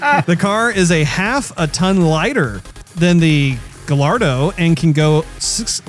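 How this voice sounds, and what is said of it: Usual voice. Nothing is said of it.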